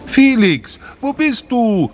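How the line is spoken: Louder call. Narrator (German): rief Sophie nun etwas lauter

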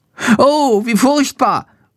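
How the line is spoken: Horrified cry. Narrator (German): ruft er entsetzt

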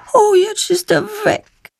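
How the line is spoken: Sad remark. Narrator (German): stellt traurig fest

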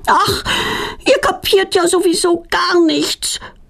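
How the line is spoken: Roaring back. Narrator (German): brüllt Petronella zurück

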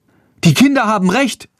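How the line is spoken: Young woman calling. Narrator (German): ruft eine junge Frau

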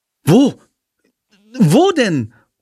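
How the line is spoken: Excited calling. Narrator (German): ruft Jendrik aufgeregt

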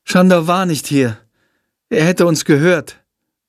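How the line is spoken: Sighing. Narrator (German): seufzt Jendrik

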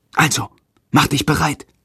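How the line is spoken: Whispered. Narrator (German): flüstert Jendrik

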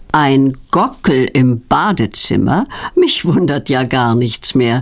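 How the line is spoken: Laughing. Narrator (German): lacht Petronellas Onkel Berti

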